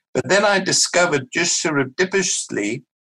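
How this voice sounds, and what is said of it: South African accent. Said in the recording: “nice South African accent.”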